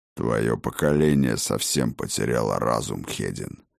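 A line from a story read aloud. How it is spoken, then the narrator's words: Grumbling. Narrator (Russian): вновь проворчал Хрофт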